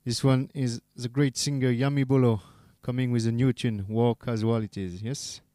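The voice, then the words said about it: French-accented English. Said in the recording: “my bad accent, as I am a Frenchman”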